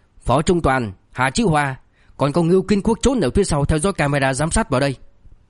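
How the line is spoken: Angry. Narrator (Vietnamese): Liêu Kinh Vũ tức giận

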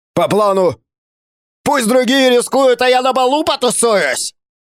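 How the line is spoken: Yelling. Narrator (Russian): Заорал он в ответ

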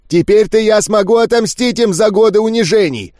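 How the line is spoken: Shouting. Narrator (Russian): кричал он

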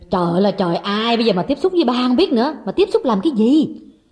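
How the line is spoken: Sharp irritated snap. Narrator (Vietnamese): Người con gái gắt lên

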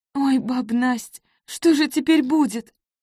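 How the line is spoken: Tearful, subsiding sobs. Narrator (Russian): Вика еще плакала, но рыдания уже не трясли ее слабую грудку

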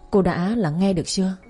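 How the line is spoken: Very gentle voice. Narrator (Vietnamese): nhân viên giọng rất dịu dàng nói

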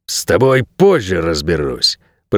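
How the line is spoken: Hissing through teeth. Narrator (Russian): прошипел куратор сквозь зубы

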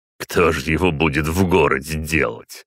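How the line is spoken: Snorting scoff. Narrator (Russian): хмыкнул Аркви

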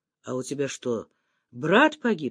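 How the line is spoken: Plain. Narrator (Russian): спросил Саня

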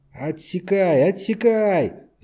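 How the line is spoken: Shouting. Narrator (Russian): закричал Камеск

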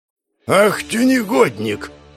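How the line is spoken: Distant growl from below. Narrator (Russian): рыкнул он еще на нижних ступенях

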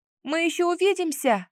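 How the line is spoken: Calling out. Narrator (Russian): крикнула вслед тающим фигурам

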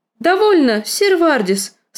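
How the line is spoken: Haughty exclamation. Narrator (Russian): свысока воскликнула Лиза

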